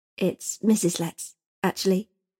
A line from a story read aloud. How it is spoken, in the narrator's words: Eliza corrected quietly